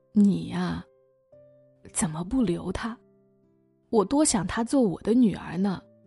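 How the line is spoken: Sighing. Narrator (Chinese): 唐鑫叹口气，说

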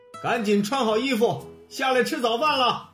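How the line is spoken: Father calling out. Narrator (Chinese): 爸爸喊他

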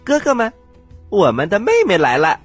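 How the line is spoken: Loud. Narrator (Chinese): 十二王子大声的说

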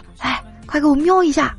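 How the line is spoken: Quiet. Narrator (Chinese): 我就小声的说

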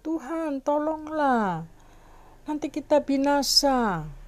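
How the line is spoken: Pleading. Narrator (Indonesian): mereka memohon itu ya, berkata

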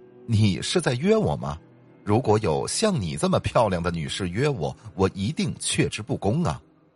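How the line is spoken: Chuckling. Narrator (Chinese): 男生呵呵的笑了

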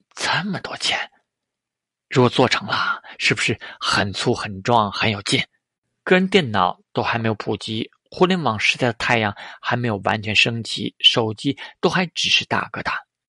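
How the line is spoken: Murmuring. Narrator (Chinese): 张如晶喃喃道

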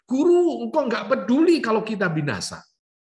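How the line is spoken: Desperate group crying out. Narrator (Indonesian): Di tengah-tengah kondisi yang terjepit, yang mengancam nyawa mereka, mereka itu berseru

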